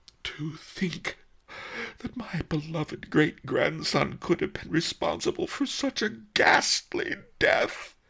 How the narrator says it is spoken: Master Li gasped

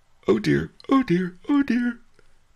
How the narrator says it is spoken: the poor fellow whimpered

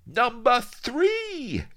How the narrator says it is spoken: exclaimed Vladimir triumphantly, but inwardly he was gloating

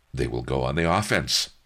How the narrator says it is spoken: I said firmly

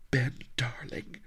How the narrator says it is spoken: quavered

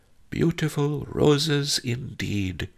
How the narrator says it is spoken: he cooed

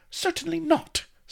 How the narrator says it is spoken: snapped Vanity indignantly

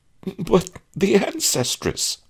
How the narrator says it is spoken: I quavered

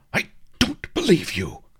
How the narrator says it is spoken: Takata Jim spluttered, spraying water in all directions

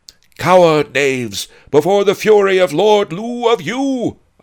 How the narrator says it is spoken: shouted

